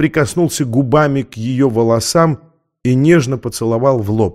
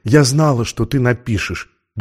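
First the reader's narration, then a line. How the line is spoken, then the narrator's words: Whispering. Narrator (Russian): добавила она шепотом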